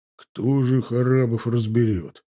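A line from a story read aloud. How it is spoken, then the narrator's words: Grumbled. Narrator (Russian): проворчал Загид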